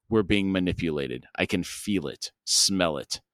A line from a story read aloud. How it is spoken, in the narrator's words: Breath hissed through his teeth, and he growled